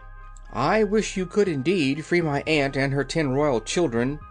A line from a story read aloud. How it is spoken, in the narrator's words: said she eagerly